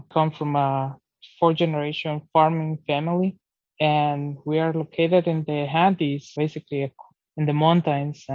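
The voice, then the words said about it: Latin American Spanish-accented English. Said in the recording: “Probably as you can hear in my accent, I'm not originally from the United States. I'm originally from Ecuador, South America.”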